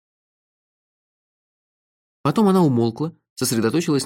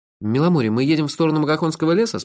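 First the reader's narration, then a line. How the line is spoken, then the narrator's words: Plain. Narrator (Russian): спросил я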